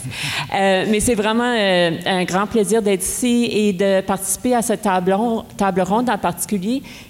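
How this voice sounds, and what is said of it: Québécois Franco-Ontarian French accent. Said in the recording (French): “j'ai aussi un accent québécois, franco-ontarien”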